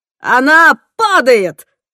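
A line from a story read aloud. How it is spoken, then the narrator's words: Yelled. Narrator (Russian): заорал Тимоти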